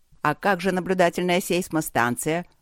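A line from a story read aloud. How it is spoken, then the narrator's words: Grumbling. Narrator (Russian): ворчал мэр Трайтис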